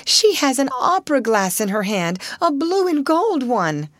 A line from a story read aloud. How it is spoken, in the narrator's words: cried Ermengarde